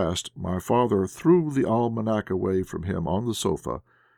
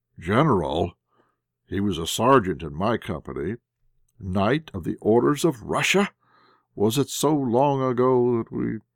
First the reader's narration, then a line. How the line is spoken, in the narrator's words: muttering half aloud